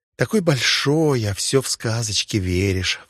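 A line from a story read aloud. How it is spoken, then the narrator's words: Sighing. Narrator (Russian): вздохнула она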